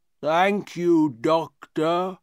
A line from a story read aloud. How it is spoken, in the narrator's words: he said, in his strange, slow voice